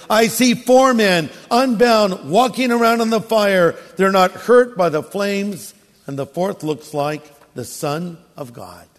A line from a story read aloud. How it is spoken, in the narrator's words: Nebuchadnezzar shouted